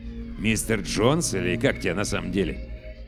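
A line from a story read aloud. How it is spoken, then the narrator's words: Mutter. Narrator (Russian): Сопровождающий бормочет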